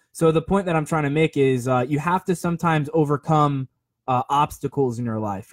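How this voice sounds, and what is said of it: Sick-sounding voice. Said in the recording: “you probably hear it in my voice. I even hear it in the headphones. But I'm overcoming getting sick”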